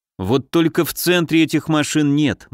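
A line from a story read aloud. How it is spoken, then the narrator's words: Gloomy. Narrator (Russian): мрачно проговорил я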